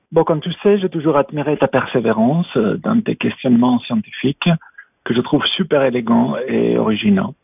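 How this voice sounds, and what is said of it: Speaks with a noticeable accent. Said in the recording (French): “Avec mon accent, ce n'est pas trop difficile.”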